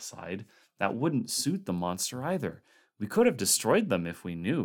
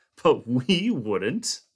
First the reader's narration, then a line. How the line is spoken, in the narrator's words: Norris laughed shortly, half hysterically